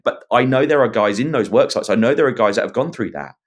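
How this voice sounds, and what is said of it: English accent. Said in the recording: “my English pommy accent”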